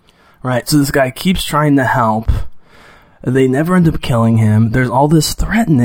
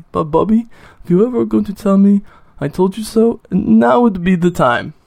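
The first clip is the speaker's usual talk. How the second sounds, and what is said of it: Poor imitation of Indian accent. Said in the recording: “That's a terrible accent, but the booby, I could just listen to her do the Indian booby forever”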